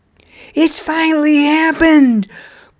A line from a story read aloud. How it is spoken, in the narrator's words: cried out an astonished Nug